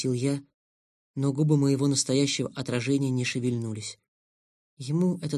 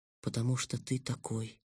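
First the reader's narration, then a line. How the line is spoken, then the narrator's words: Sad kitten. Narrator (Russian): грустно сказал котенок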